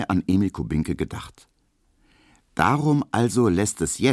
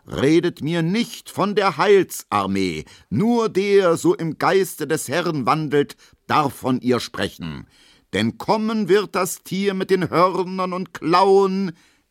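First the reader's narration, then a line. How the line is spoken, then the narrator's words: Roaring lion-like voice. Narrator (German): brüllt mit Löwenstimme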